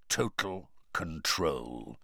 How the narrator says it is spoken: said Moody quietly

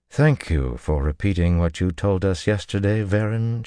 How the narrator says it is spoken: she said dryly

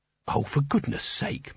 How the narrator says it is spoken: muttered Canina

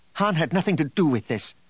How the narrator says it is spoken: Leia snapped

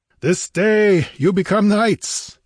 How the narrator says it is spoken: he laughed fiercely

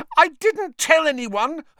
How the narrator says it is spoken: Hermione shrieked

